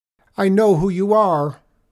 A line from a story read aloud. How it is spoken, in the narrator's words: shouted the young man